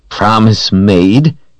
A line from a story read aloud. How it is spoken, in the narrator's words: He sneered